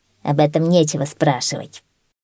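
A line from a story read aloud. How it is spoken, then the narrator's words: Angry reply. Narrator (Russian): сердито ответил койот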